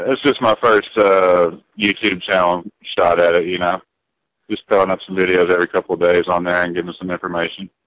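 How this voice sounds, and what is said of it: Mild Southern US accent. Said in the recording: “You got some of that southern accent in you still, don't you? ... I still got a little bit of accent. ... you're keeping the south in you”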